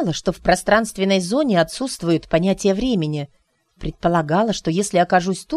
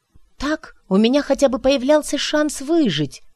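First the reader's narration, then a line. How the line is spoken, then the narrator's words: Exclaimed. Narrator (Russian): воскликнула Кайра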